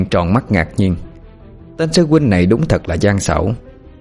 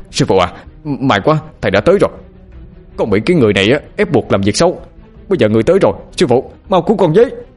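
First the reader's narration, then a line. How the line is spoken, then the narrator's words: Shouting while fighting. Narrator (Vietnamese): Bằng vừa đánh vừa hướng mặt về phía ông lão mụ mà hét lên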